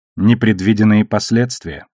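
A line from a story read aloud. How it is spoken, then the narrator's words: Sighing. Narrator (Russian): вздохнула Наоми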